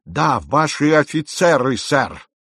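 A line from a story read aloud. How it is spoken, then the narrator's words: Aggressive barking shout. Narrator (Russian): рявкнул все с той же агрессивностью сэр Роберт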